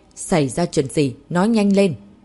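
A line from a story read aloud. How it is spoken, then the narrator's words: Shout. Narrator (Vietnamese): Michelin Acut hét lên một tiếng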